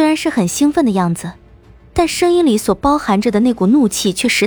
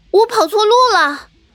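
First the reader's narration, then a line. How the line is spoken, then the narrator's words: Excitement turning furious. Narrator (Chinese): 火宝那兴奋的声音瞬时间就变得怒火腾腾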